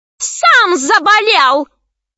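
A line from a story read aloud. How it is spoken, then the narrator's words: Screaming. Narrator (Russian): завопила боевая подруга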